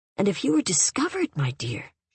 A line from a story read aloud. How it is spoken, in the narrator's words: she said more gently